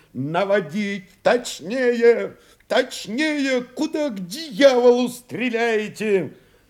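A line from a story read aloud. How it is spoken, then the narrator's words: Shout over explosion. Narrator (Russian): Резкий грохот, сотрясший воздух на высоте, горячо и больно толкнул в уши, и Новиков крикнул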